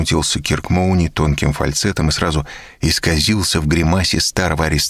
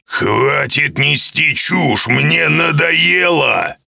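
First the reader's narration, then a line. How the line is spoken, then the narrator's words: Angry growl. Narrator (Russian): зарычал Гидеон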